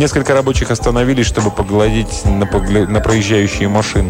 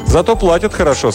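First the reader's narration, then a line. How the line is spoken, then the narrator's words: Plain. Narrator (Russian): сказал Николя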